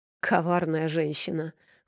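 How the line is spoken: Snorting. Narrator (Russian): фыркнул Аверин

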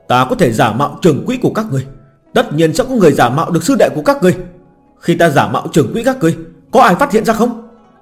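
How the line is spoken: Hurried shout. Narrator (Vietnamese): Phan trưởng quỹ giả vội la lên

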